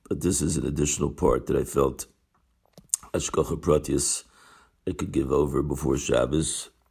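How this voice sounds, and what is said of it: Very hoarse voice. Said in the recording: “as you can hear, I have a very, very hoarse throat”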